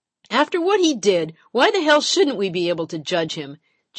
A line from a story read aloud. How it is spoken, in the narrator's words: Janice hollers back